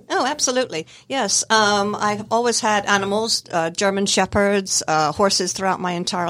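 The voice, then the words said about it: Scottish accent with slight American tinge. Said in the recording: “you have an accent. Where's your accent from? ... I was born in Scotland in the United Kingdom. ... too many years in the United States have sort of like kind of put a tinge on it”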